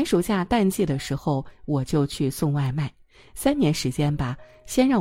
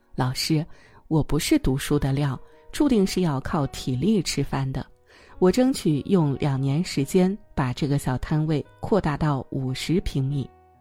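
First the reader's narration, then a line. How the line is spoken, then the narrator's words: Smiling. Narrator (Chinese): 他笑着说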